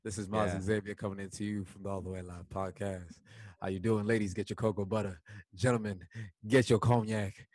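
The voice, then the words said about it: Put-on smooth podcast host voice. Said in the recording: “you have a podcast voice. you've definitely got a podcast voice ... It starts off real soiree.”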